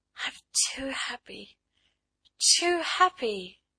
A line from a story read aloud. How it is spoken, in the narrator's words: she murmured